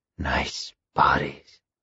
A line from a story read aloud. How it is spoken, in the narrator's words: he said, his voice low and phlegmy, wet and guttural